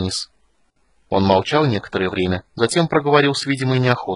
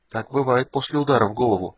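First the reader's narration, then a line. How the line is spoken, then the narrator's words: Whispering wind. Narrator (Russian): шепнул Танису речной ветер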